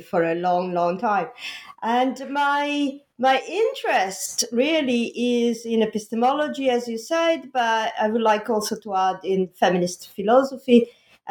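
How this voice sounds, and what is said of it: Italian accent. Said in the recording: “I'm Italian and uh, the Italian accent”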